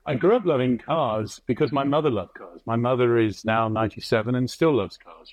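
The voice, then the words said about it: British accent. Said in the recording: “as you can guess by the accent, I was born in the UK”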